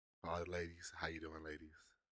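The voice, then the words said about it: Deep, sultry seductive voice. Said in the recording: “I hope my sexy voice through the speakers soothes you ... I'm trying to get my Barry White voice on.”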